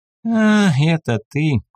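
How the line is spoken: Lazy drawl. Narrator (Russian): протянул он лениво

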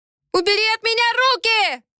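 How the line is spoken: Screaming. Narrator (Russian): заорала

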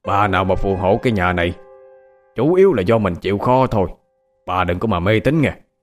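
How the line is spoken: Loud husband's voice. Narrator (Vietnamese): Ông chồng lớn tiếng

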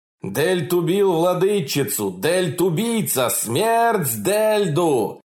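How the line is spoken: Crowd shouting. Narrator (Russian): В зале все кричали

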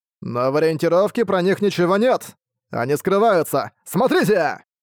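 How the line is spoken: Shouted exclamation. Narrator (Russian): Арк выкрикнул

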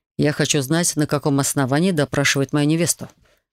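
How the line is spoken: Icy tone. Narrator (Russian): ледяным тоном произнес Хантер

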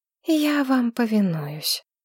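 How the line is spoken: Sighing. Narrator (Russian): вздохнула Маргарет

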